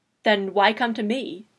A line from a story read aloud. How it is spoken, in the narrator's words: Will asked again